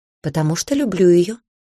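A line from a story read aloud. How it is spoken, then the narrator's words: Calm interruption. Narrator (Russian): спокойно перебил Шера Мертон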